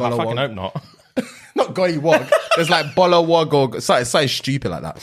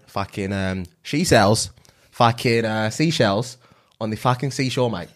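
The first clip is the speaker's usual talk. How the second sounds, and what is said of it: Put-on Australian accent. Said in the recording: “Australia, Australia ... Next accent.”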